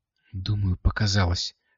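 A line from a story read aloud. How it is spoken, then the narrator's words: Whisper. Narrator (Russian): шепнула она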